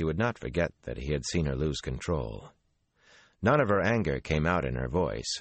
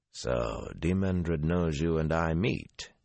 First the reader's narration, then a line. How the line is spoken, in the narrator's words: he said flatly